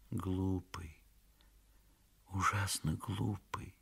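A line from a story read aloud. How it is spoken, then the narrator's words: Whisper. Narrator (Russian): шептала она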